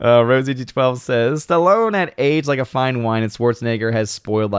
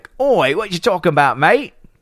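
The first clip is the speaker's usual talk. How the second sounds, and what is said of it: Mock British accent, Dick Van Dyke. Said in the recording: “Dick Van Dyke impression is problematic ... my Dick Van Dyke? You mean my UK impression?”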